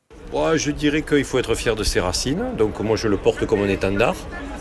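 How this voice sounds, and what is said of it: Southern French accent. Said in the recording (French): “l'accent du Sud”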